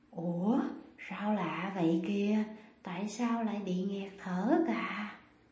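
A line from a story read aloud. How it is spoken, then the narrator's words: Hoarse woman. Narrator (Vietnamese): Cô ta nói giọng khàn khàn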